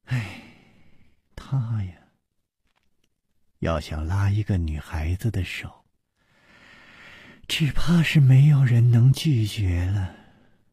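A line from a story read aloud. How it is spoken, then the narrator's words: Sighing. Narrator (Chinese): 苏蓉蓉叹道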